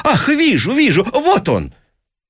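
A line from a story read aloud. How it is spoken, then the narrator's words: Feigned excited exclamation. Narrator (Russian): сделанным оживлением, воскликнул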